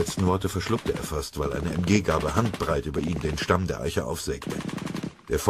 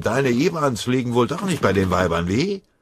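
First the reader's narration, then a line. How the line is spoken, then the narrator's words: Mocking shout in ear. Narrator (German): Der gefreite Beckerath brüllte seinem Kameraden höhnisch ins Ohr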